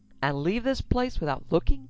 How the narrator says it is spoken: Cowan cried

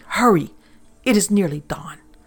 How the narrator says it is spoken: Serafino's guttural voice interrupted him, saying harshly

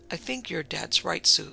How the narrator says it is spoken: Steve Thatcher interrupted gently

